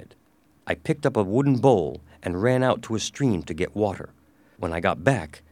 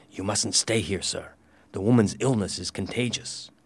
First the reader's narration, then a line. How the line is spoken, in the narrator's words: whispered in his ear